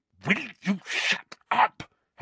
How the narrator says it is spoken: Harry hissed

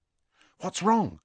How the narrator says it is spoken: said Hermione in an anxious voice

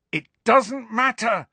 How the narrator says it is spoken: Harry shouted

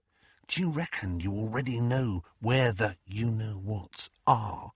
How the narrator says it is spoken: dropped his voice to a whisper

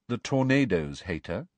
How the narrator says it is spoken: said Cho, rather coolly

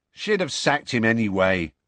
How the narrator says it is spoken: said Dean

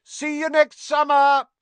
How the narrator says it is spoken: Harry yelled

